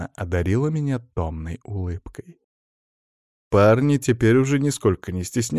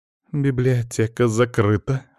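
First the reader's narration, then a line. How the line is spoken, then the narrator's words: Husky curt remark. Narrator (Russian): хрипловатым голосом бросила она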